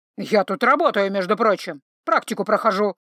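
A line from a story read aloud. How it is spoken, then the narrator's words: Growl. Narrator (Russian): рыкнул Синекрылый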